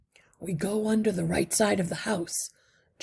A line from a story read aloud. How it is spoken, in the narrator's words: Justin said quietly